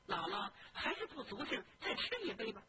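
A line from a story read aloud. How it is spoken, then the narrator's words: Smiling question. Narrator (Chinese): 凤姐又笑着问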